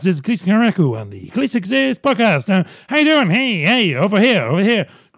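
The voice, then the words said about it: Very fast, buzzing screwball-style speech. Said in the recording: “I think I'm talking really fast... I'm now in a screwball comedy from the 30s... talking really fast... I'm buzzing mad now”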